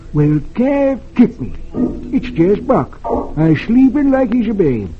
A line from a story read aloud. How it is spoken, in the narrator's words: California exclaims